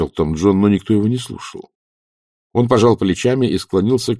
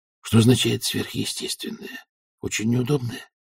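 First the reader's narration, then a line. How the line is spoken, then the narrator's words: Whispered question. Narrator (Russian): спросил он шепотом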